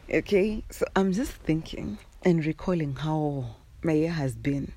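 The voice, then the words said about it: Hoarse, just-woken-up voice. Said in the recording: “I've just woken up. ... Forgive my hoarse voice.”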